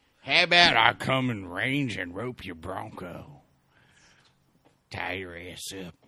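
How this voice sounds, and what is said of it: Cowboy accent. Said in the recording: “Say it with your fucking cowboy accent.”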